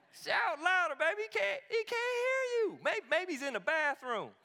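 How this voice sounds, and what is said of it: Put-on Southern American accent. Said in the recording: “Elijah's got to have a southern accent because smack comes out better in a southern accent.”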